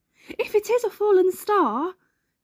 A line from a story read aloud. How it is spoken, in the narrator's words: he cried